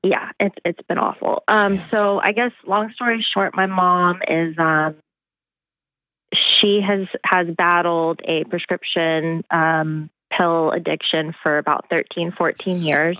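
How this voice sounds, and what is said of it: Emotional, strained voice. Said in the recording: “getting emotional”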